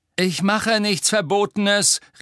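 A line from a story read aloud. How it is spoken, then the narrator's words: Calling after someone. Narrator (German): rief Harry ihr nach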